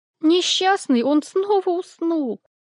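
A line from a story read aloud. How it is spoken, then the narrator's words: Sorrowful exclamation. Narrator (Russian): горестно воскликнула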